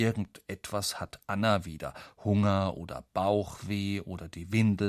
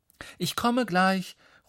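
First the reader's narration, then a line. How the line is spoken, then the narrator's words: Calling out. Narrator (German): ruft Mama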